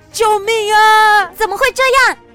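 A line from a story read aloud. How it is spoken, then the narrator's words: Crying out repeatedly. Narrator (Chinese): 罗伊不停地哭喊着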